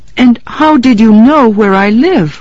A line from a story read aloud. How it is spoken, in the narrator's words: Miriam laughed